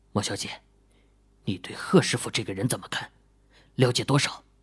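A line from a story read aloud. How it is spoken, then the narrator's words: Whispering in ear. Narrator (Chinese): 秦羽嘴唇凑到了莫永新的耳垂边上，轻声问道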